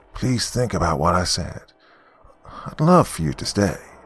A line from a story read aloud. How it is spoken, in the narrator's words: Gary replied in a hushed tone